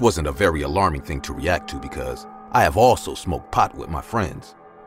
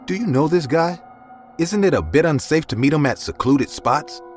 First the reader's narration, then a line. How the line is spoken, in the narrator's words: said in a worried voice